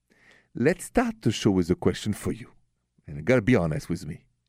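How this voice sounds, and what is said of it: French accent. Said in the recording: “the accent is French, français.”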